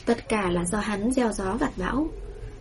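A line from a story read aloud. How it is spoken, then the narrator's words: Soft mocking laugh. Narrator (Vietnamese): Tây Lương Mạt khẽ cười giễu cợt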